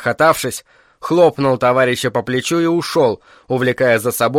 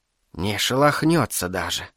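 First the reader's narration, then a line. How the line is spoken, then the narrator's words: Whisper. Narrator (Russian): шепнула Агнешка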